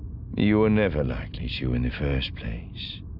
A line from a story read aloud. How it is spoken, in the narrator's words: Thrawn said dryly